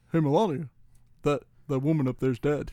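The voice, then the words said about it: Poor Barack Obama impression. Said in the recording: “That was a really bad Barack. I feel like I've done better Obamas. ... a better Barack than it was a Melania”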